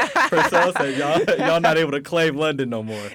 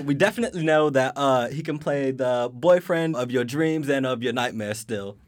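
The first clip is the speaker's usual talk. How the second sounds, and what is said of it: Put-on London accent. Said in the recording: “I'm gonna try to do the outro in my London accent.”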